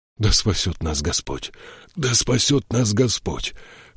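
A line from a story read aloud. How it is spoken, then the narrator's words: Hoarse repetition. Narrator (Russian): хрипло повторил Тайгер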